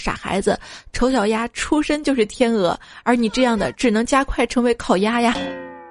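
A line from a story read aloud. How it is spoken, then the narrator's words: Sighing. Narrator (Chinese): 鸭妈妈叹了口气说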